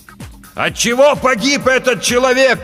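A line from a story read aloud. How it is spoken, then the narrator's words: Shouting. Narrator (Russian): прокричал капитан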